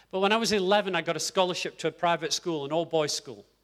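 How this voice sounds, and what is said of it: Posh English accent. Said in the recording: “my accent now is very posh”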